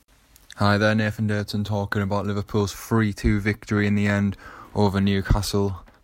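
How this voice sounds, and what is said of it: Croaky voice. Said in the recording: “Sorry if my voice is a bit croaky”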